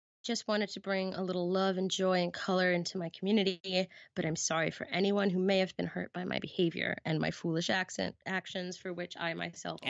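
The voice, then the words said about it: Weird made-up accent. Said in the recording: “Accent. ... I just made it up. It's not real. It's just a weird accent that I do.”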